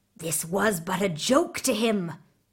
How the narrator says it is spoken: they whispered to the Tsar

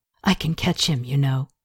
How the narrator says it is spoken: she whispered

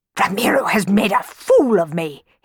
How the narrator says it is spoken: he spluttered

